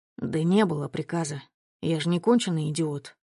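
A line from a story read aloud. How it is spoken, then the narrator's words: Tired mutter. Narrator (Russian): устало пробормотал Широков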